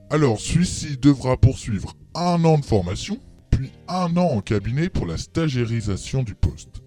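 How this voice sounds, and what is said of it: Breton regional French accent. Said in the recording (French): “Vous avez un accent, vous venez d'où? ... je viens de Bretagne”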